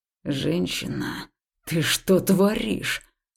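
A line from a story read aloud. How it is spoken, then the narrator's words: Growl. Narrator (Russian): прорычал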